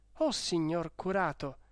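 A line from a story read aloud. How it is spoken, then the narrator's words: Exclaimed. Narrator (Italian): esclamò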